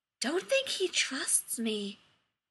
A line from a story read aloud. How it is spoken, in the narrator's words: he whispered into McKay's neck